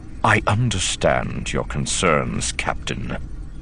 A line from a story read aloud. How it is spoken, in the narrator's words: he said quietly